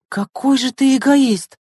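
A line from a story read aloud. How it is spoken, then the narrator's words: Exclaiming. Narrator (Russian): воскликнула Лена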